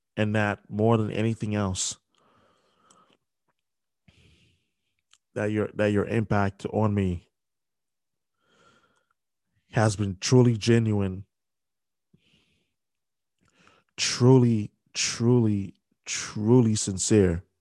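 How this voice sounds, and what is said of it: Emotional, halting voice. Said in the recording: “I'm sorry that I'm getting emotional right now.”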